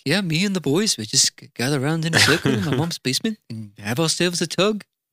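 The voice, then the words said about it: Quick put-on Liverpool accent. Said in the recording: “That's my best Liverpoolian accent I could whip up in a second.”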